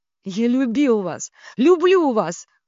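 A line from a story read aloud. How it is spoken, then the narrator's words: Almost shouting. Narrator (Russian): почти закричал Кирилл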